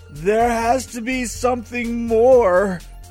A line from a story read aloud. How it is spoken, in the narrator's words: he shouted